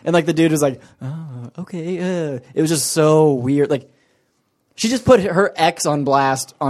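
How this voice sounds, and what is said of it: Usual voice. Nothing is said of it.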